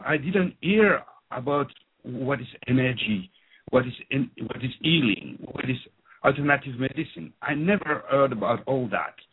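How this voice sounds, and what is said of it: French-speaking accent. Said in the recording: “As you can hear from my accent, I'm French-speaking”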